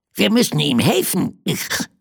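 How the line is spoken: Called out. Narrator (German): rief es

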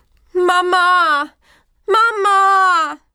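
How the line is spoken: Little lamb calling repeatedly. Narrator (German): Das kleine Schäfchen rief und rief

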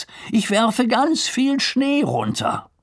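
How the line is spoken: Calling out. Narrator (German): ruft Lars

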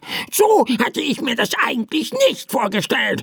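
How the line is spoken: Annoyed bird croak. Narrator (German): krächzte der Vogel verärgert

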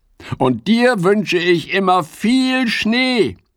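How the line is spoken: Called out. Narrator (German): ruft Fips

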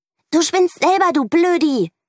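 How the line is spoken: Shouted. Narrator (German): schreit Mieke

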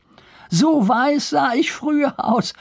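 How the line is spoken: Laughing. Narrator (German): fügte er lachend hinzu

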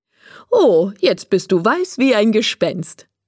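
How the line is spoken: Laughing. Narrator (German): sagt Frau Mischke und lacht

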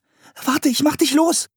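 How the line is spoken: Called. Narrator (German): rief Anne

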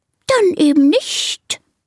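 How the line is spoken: Offended hiss. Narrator (German): zischt die Schlange beleidigt

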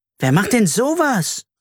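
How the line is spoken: Indignant call. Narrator (German): rief Carla empört

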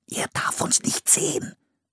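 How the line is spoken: Whispered. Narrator (German): flüsterte Philipp

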